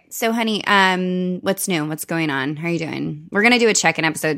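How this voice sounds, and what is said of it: Valley Girl accent. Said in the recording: “I like my fucking accent. I mean, we get called Valley Girls”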